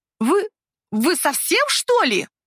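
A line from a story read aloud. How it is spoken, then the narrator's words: Barked. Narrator (Russian): Рявкнула она на меня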